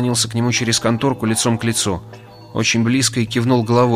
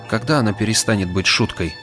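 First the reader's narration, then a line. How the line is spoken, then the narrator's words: Very quiet. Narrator (Russian): И добавил очень тихо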